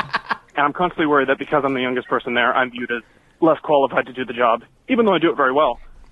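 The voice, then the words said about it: Out of breath, breathy speech. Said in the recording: “I'm going uphill. That's why I'm out of breath.”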